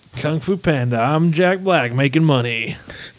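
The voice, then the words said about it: Imitates another person's voice. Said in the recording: “Was that even an attempt at a Jack Black impersonation?”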